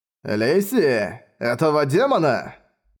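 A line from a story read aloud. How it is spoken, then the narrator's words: Old man's cheerful question. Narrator (Russian): весело переспросил старик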